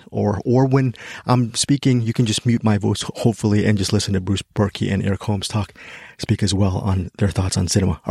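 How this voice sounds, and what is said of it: Out of breath, nervous-sounding voice. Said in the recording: “I sound out of breath and very nervous”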